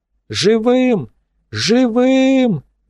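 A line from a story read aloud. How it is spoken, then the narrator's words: Yelling into throat mic. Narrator (Russian): заорал Шубин в ларингофон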